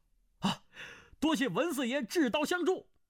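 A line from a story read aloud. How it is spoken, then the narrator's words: Joyful loud shout. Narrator (Chinese): 胡斐大喜，纵声叫道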